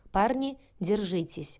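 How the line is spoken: Commanding. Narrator (Russian): приказал Янковский

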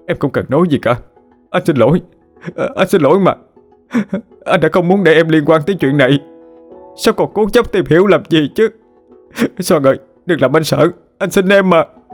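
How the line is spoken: Sobbing. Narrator (Vietnamese): nức nở lên

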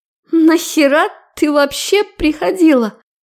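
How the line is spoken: Shrieking. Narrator (Russian): Визжала она мне в спину

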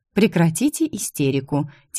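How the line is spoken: Quiet. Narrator (Russian): тихо сказала

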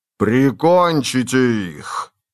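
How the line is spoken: Thundering muffled command. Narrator (Russian): прогремел глухой голос воина-мага, когда он давал команду собратьям

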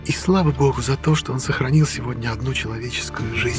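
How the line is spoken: Barely audible. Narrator (Russian): чуть слышно добавила

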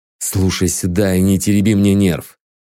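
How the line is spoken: Menacing hiss. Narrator (Russian): грозно зашипел я

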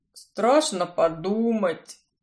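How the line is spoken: Moaning. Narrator (Russian): Стонал он

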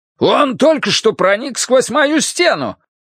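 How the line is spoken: Shouting. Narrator (Russian): крикнул Тадзек

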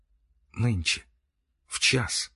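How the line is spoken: Whispered with a heavy sigh. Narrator (Russian): прошептала она и, тяжело вздохнув

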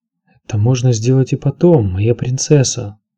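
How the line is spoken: Soft-spoken. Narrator (Russian): сказал он негромко

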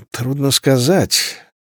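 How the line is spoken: Mumbled. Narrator (Russian): промямлил Дик

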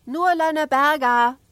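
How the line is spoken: Little girl shouting. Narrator (German): schrie die kleine Ida

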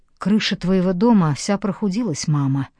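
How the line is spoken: Quiet. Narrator (Russian): тихо сказала Тори

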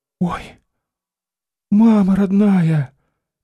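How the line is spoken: Sighing whisper. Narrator (Russian): вздохнула и шепотом

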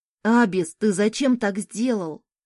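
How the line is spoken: Angry son speaking. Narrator (Russian): сердито проговорил сын

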